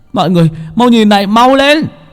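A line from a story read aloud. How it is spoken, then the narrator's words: Sudden shout. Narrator (Vietnamese): Chợt Bảy Ếch la lên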